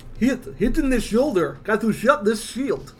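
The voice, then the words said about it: Put-on Russian accent. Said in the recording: “Good accent. ... Dredd is Russian.”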